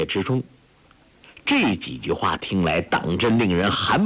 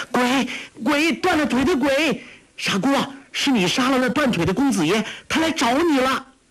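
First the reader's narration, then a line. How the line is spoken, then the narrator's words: Shrill cry. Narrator (Chinese): 黄蓉尖声叫道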